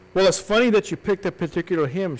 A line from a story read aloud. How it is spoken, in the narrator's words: she said